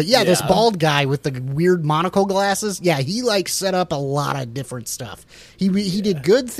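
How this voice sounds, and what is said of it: Usual voice. Nothing is said of it.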